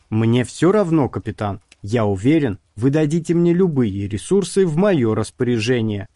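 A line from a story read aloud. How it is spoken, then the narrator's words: Plain. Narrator (Russian): ответил Дрелл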